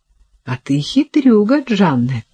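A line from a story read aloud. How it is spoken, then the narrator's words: Laughing. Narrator (Russian): Она рассмеялась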